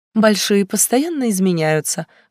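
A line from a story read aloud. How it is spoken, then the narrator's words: Sad sigh. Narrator (Russian): грустно вздохнула другая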